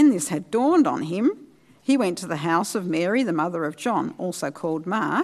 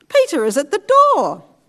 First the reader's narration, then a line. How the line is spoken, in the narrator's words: she was so overjoyed she ran back without opening it and exclaimed